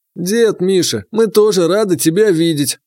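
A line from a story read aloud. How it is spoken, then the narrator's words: Mocking reply. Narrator (Russian): насмешливо отозвался Сытин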